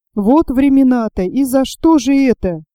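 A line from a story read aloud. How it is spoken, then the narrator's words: Loud wailing. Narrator (Russian): громко завопила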